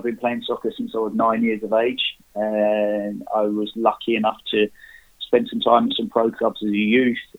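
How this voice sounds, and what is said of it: British accent. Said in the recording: “as you can probably tell by the accent, I'm from the UK, just outside London.”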